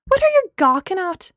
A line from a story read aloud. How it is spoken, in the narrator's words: Gemma shouted at them